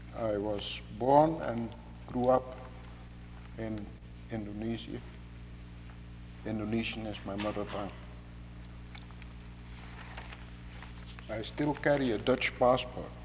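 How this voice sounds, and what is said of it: Unusual non-native English accent. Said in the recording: “explain the strange accent”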